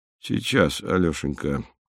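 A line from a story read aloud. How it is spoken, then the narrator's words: Choked mumble. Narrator (Russian): сдавленно пробормотал Михаил Антонович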